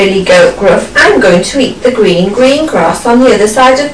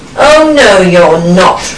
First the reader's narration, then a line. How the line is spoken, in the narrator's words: roared the troll